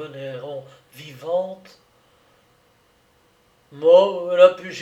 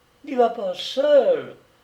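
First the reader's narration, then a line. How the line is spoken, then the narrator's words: Young girl exclaiming. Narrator (French): s'écria la jeune fille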